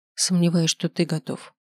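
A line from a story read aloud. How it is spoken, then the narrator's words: Quiet reply. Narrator (Russian): ответила тихо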